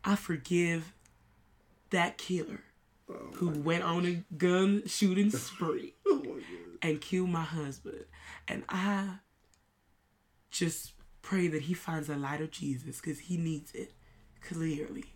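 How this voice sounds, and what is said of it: Put-on Southern Texas accent. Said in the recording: “What in America is this accent from? ... This is from down south. ... This is from Texas.”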